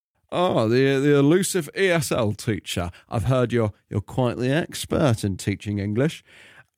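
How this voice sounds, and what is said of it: Alan Partridge impression. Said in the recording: “I've got to do my Partridge voice.”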